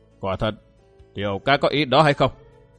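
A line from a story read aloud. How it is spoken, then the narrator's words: Stern old man's question. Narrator (Vietnamese): Lão già râu thưa trầm gương mặt nghiêm giọng hỏi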